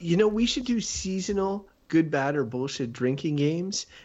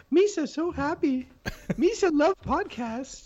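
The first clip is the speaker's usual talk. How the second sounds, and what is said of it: Imitates Jar Jar Binks character voice. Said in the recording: “bad Jar Jar Binks impersonation”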